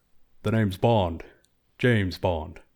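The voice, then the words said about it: James Bond impression, slightly Connery-like. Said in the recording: “your best James Bond impression ... it, felt a little bit Connery, but mixed with your own flavor”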